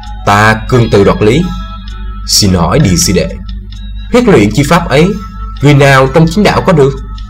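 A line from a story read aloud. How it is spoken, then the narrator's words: Cold. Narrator (Vietnamese): Thương Tùng đạo nhân lạnh lùng nói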